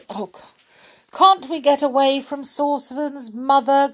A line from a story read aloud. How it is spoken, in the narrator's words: groaned